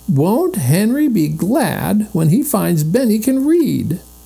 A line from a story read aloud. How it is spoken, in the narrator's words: cried Violet